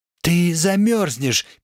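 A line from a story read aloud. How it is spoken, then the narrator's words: Squeak. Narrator (Russian): пискнула она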